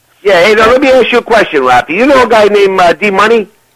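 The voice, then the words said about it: New York accent. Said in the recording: “Can't you tell by the accent? ... New York, Boston, New Jersey”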